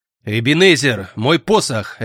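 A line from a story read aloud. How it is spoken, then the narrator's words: Barked. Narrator (Russian): рявкнул некромант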